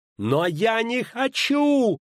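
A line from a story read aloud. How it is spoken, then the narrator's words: Loud yell. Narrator (Russian): заорала Цири так, что кобыла заплясала под нею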